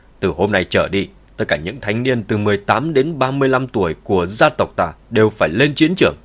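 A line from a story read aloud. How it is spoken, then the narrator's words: Raised, elderly voice. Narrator (Vietnamese): Ông cụ cất cao giọng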